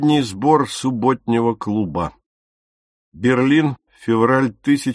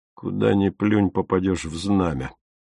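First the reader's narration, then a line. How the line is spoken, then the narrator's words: Muttered. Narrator (Russian): буркнул Отто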